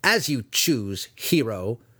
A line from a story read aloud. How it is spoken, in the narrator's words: Dinin spat